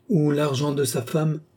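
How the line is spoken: Sneering. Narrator (French): ricana-t-il

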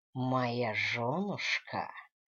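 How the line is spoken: Drawl with whistle. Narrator (Russian): протянул он, присвистнул

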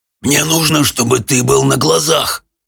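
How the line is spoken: Hoarse rasp. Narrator (Russian): прохрипел Хоул

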